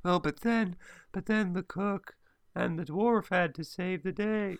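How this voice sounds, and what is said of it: Imitating a boring narrator woman's voice. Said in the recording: “the mum has got such a boring voice ... this really boring woman who just keeps waddling in and just going”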